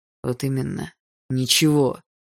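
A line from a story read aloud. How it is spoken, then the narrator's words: Spat through teeth. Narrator (Russian): Сквозь зубы выплюнул Барс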